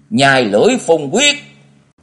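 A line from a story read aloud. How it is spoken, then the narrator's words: Loud shout in unison. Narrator (Vietnamese): Mỗi người của quyết ảnh tứ ải đồng thời hét lớn nói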